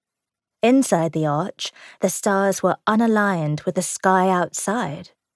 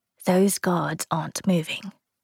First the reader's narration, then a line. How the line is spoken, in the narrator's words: he whispered